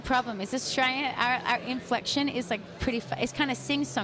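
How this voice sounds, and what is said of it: Usual voice. Nothing is said of it.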